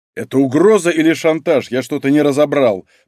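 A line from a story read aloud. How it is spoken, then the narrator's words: Growl. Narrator (Russian): прорычал Малинин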